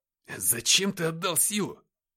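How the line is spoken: Exclamation. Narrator (Russian): воскликнул Никита

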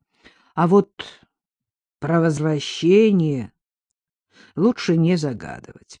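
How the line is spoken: Grumbling. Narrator (Russian): проворчал Шевцов

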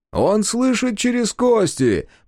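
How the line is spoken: Shouted reply. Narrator (Russian): прокричал в ответ Таквал

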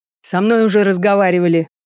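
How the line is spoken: Rude reply. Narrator (Russian): грубо отозвался Олег

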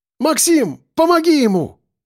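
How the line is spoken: Shouting. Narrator (Russian): крикнула Яна

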